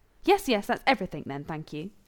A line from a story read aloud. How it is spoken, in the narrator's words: Rodney snapped